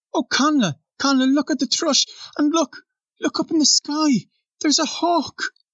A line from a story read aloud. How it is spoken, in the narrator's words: cried Nora